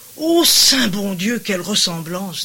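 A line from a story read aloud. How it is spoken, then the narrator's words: Plain. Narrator (French): dit Brigitte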